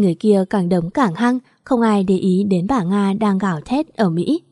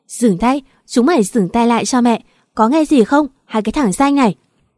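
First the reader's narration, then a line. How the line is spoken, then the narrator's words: Angry yelling woman. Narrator (Vietnamese): Bà Nga la lên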